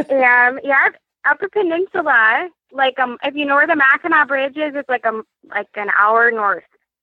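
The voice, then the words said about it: Slight northern Michigan accent. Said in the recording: “you're very far north, like close to Canada, detecting a little bit of accent”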